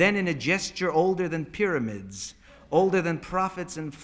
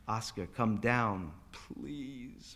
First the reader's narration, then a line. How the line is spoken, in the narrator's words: Rabbi Binder groaned